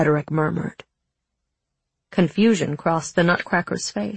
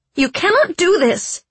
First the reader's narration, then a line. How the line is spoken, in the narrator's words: said Clara angrily